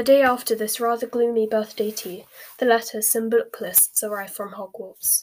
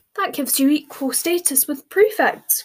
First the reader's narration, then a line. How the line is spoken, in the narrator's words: cried Hermione happily